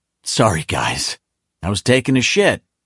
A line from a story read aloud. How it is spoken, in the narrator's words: the breathless kid blurted